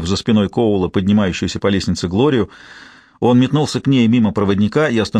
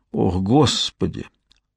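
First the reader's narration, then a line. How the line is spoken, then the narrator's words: Mutter. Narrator (Russian): пробормотал Стивен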